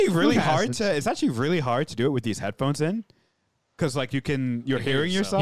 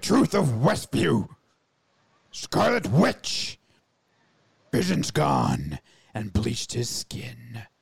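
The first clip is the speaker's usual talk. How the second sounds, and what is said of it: Gruff Batman voice, orc-like. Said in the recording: “not your best Batman impression... That sounded more like an orc from World of Warcraft”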